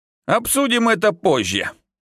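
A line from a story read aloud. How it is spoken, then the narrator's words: Evasive snort. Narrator (Russian): хмыкнул я, уходя от вопроса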